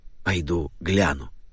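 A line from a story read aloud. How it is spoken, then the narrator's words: Whisper from window. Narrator (Russian): шепнул мистер Александр из окошка в холле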